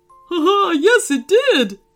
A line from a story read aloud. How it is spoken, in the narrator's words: laughed